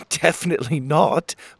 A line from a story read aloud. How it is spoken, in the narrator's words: Pockets laughed